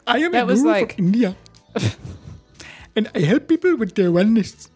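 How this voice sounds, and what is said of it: Put-on, unconvincing Indian accent. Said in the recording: “That's not an Indian accent.”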